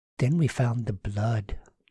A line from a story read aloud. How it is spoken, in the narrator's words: Susan said gravely